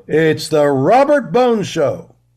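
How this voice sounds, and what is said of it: Big announcer voice. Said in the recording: “Do like a big announcer voice.”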